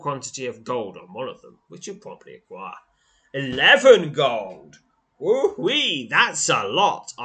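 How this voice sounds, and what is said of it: Sarcastic mock excitement. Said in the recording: “I am being sarcastic.”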